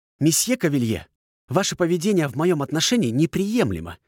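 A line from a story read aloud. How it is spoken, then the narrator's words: Declared. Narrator (Russian): заявила Аркадия, резко вскинув подбородок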